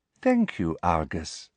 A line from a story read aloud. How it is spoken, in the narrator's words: she said sweetly